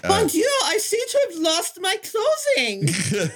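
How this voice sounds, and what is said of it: Fake over-the-top French accent. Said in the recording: “dressing accent. I mean, she's about as French as Perrier ... that accent that you would put on if you're like an 80s sex comedy and playing like the maid”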